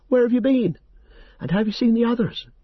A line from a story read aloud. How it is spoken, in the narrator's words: I cried